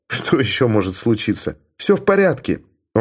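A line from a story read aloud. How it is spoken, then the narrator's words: Laughing. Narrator (Russian): он засмеялся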